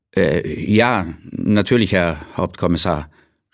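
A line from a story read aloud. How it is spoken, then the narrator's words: Stammering. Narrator (German): stammelte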